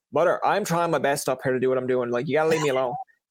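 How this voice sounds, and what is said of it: Strong Newfoundland accent, Irish-tinged. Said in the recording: “I'm from Newfoundland. So it's the Irish kind of comes out every now and again ... Now I know you're from Newfoundland. I got the accent ... it comes out when I'm mad”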